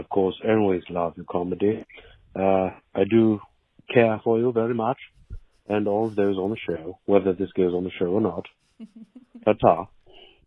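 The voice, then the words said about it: Fake put-on accent. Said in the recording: “that's definitely someone doing a fake accent ... Oh, totally is them doing a fake accent ... Why are you doing a fake accent?”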